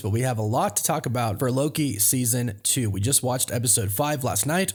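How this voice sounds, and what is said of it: Sick, unwell-sounding voice. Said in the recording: “I'm a little sick, so pardon my voice,”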